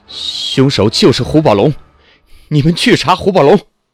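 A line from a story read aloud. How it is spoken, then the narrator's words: Loud desperate shout. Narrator (Chinese): 马路顾不了那么多了，他大声喊着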